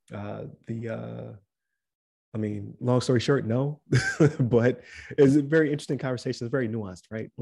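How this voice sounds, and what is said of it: Strained, fading voice. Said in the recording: “I'm losing my voice”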